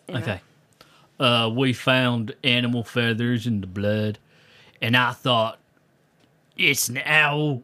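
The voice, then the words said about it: Put-on American accent. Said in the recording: “You do an American accent, an uh, owl feather American accent.”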